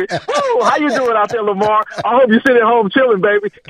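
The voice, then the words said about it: Denzel Washington impression. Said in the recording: “In my Denzel voice”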